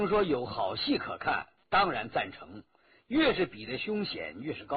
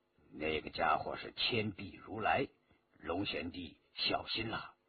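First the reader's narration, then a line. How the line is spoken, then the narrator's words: Low voice. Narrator (Chinese): 白振低声说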